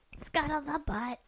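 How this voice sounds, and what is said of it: Gonzo Muppet character voice. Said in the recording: “That's my Gonzo impression.”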